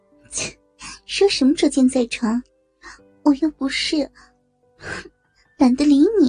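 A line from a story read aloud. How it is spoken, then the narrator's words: Laughing scolding. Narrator (Chinese): 王慧笑骂道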